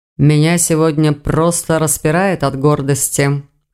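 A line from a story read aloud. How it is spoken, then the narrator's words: Pleased snort. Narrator (Russian): хмыкнул Хью, довольно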